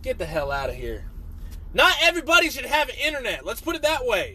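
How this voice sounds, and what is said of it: Yelling. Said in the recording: “I'm yelling on my own podcast”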